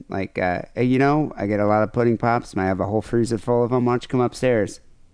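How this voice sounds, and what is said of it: Imitates another person's voice. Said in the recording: “I like your Bill Cosby impression. Spot on. ... It's exactly how he sounds.”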